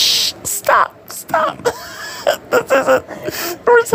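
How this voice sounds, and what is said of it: Usual voice. Nothing is said of it.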